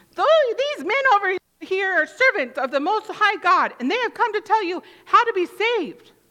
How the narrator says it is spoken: shouting

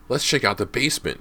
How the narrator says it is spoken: James exclaimed

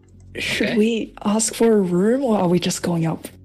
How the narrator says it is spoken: I whisper to them

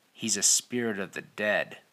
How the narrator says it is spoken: hissed Vernon

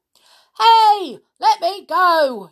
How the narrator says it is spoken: yelled the enormous crocodile, who was now dangling upside down

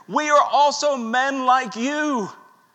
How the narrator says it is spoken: In a loud voice, they protest and they say

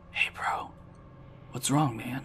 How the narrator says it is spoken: whispered to him

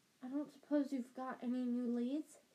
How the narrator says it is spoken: she added in a whisper, so that Madame Pomfrey couldn't hear her

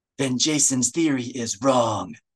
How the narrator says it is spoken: Tizar rasped

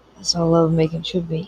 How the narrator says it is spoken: he said quietly

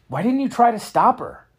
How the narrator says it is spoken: Max exclaimed

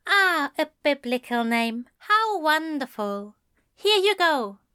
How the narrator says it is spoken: Alistair said cheerfully

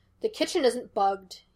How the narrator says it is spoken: he snapped

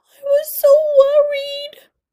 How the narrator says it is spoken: cried Cynthia, near tears

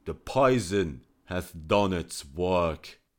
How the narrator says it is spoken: the venom penetrated his system, and he fell into strong convulsions, and he cried out

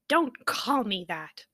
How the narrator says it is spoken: Poppy snapped

